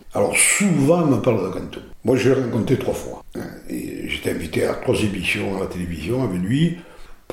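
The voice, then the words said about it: Southern French accent. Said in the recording (French): “l'accent du midi, bon, dérage, c'est pas de ma faute hein, d'avoir cet accent, je le trouve magnifique.”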